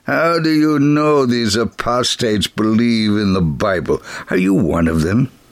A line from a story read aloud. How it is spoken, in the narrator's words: the gentleman asked now in an unpleasant tone